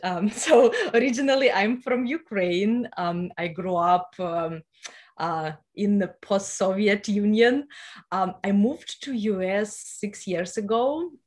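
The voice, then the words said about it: Ukrainian accent. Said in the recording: “you can hear my accent”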